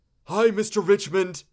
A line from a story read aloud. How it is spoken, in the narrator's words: Ben called out